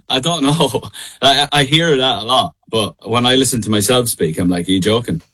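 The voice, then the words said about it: Irish accent, Midlands Ireland. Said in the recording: “the Irish accent ... I have like quite a straight down the middle, like middle of Ireland accent”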